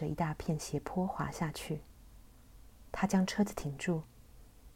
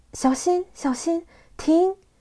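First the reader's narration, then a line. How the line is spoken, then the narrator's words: Shouting. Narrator (Chinese): 我一面叫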